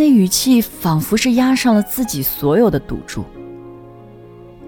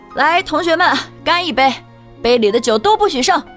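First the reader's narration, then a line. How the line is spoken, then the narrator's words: Bold hearty shout. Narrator (Chinese): 豪气万丈的喊着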